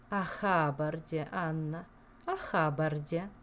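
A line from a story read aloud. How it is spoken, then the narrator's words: Sighing. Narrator (Russian): вздохнула Камилла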